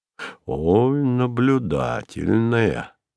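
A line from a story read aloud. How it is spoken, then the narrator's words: Respectful drawl. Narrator (Russian): протянул Кузя уважительно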